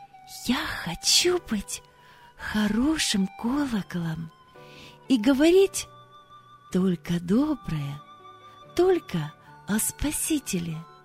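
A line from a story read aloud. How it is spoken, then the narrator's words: Quiet whisper. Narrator (Russian): тихо прошептала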